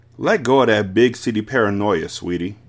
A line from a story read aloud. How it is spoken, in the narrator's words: said